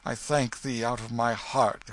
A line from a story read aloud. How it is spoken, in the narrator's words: exclaimed Hendon, with a fervency which showed that he was touched